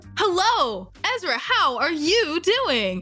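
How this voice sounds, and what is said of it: Game show host voice. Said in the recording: “her manner of speaking is as though a game show host”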